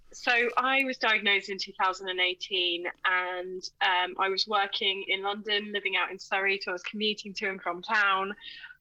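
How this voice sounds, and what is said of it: Sniffly voice with a cold. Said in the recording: “I've got a bit of a cold, which is a bit of snuffling in the background”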